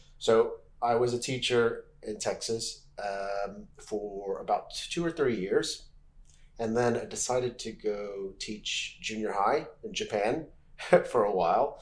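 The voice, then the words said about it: Merthyr-area Welsh accent. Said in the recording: “not a native sort of Swansea accent... it's more of Merthyr way, my accent”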